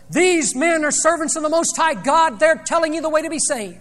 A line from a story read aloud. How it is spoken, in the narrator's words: She began shouting at the top of her voice